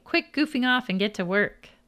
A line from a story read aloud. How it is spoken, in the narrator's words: I laughed saying